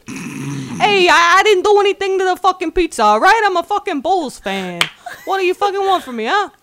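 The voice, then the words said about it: Italian New York mobster voice. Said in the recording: “New York Italians or actual Italian mafia ... do an Italian impression”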